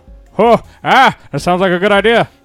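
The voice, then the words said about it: Imitates another person's voice. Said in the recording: “Rob Williams impersonation ... That was one of the better Rob Williams impersonations we've had.”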